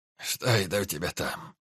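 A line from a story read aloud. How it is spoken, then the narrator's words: Hoarse voice from behind. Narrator (Russian): хрипло донеслось из-за спины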